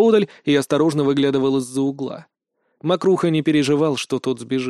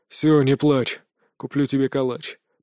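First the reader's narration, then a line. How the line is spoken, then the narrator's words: Hoarse wheeze. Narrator (Russian): прохрипел Иван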